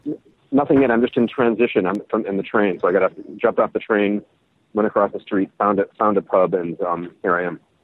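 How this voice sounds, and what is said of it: Chicago American accent. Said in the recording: “It's a bit more Chicago than Cardiff. ... the accent didn't exactly sound Welsh.”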